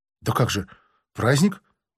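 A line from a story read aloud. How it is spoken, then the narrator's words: Mutter. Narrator (Russian): пробормотал он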